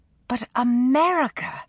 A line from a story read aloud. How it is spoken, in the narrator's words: she exclaimed